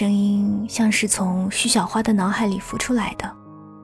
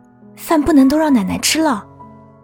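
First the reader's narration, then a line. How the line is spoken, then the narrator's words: Hurried, urgent voice. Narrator (Chinese): 一个急促的声音说道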